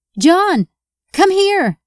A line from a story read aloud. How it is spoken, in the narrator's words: Emma replied, and then yelled